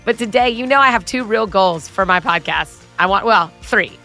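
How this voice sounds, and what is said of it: Congested voice from a cold. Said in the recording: “I have a cold. ... My voice sounds terrible. I'm coughing a lot. ... my voice sounding like this, a little different than usual”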